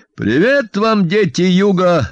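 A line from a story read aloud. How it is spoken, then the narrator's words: Bark. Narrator (Russian): рявкнул Ваня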